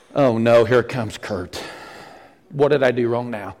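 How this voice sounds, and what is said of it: Stern preacher-like character voice. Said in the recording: “The preacher voice. ... Oh, the principal voice”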